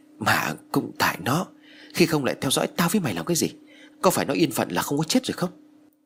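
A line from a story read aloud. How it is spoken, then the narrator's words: Trembling voice. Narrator (Vietnamese): Phong liền run rẩy nói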